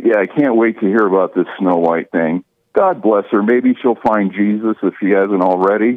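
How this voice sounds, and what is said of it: Out of breath. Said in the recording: “I'm out of breath. I've been rattling on for a while.”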